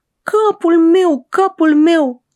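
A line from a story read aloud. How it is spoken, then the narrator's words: Shouting. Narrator (Romanian): strigând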